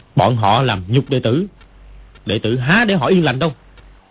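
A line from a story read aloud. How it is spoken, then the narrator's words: Angry. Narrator (Vietnamese): Dương Quá tức giận nói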